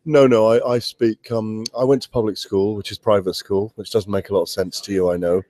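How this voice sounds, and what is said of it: Southern standard British English accent. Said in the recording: “I would say radio English, fairly southern standard radio English.”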